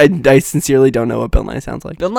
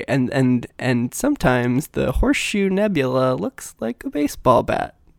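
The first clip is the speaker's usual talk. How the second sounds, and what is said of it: Imitates another person's voice, poorly. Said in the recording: “really bad impression of Bill Nye”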